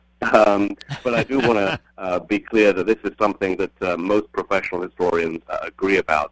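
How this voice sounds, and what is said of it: British accent. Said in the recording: “they could hear my British accent”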